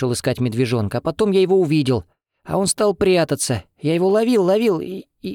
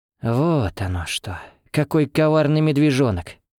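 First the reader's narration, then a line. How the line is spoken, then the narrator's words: Forced, strained words. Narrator (Russian): выдавила, наконец, она, чтобы хоть что-то сказать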